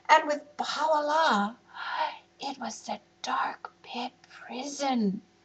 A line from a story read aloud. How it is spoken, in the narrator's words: whispered Shala in a quiet voice